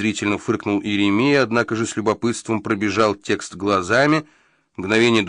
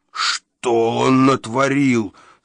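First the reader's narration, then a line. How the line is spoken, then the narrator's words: Moaning. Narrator (Russian): стонал Еремия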